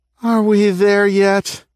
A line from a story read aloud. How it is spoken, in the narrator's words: moaned